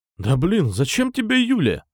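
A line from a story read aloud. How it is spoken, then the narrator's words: Displeased male exclamation. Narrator (Russian): недовольно воскликнул боксер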